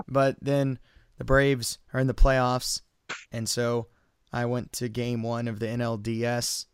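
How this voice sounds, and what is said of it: Hoarse, losing voice. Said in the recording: “my voice is gone ... You can clearly hear”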